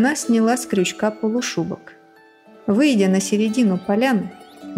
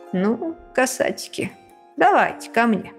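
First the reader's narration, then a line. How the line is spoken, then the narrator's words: Woman speaking, then laughing. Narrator (Russian): Голосом сказала она и рассмеялась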